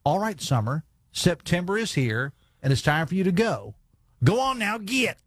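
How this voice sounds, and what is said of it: Southern West Virginia accent. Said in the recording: “in my best Logan County accent”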